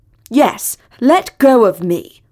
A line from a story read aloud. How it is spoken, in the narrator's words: exclaimed the woman haughtily